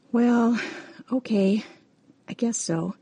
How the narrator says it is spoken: sighed from half a world away

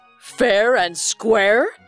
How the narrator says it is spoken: laughed louder

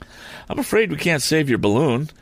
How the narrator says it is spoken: gasped Tom

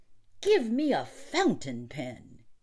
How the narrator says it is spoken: he snapped

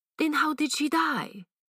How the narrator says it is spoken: asked Flambeau impatiently

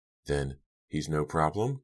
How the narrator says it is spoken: Diane asked anxiously

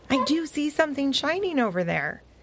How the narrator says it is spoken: Seely barked

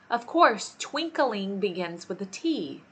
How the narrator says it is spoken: said the king sharply

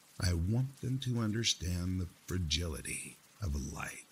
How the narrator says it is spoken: replied

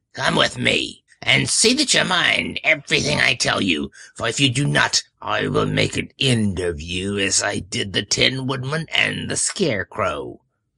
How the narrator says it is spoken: she said to Dorothy, harshly and severely

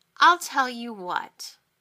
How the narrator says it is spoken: she said coldly

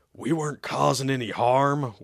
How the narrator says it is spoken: Weasel growled

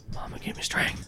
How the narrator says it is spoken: You hear under his breath

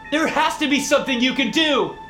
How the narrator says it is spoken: I shouted

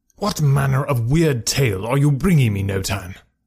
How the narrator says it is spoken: cried

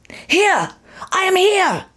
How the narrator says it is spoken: cried

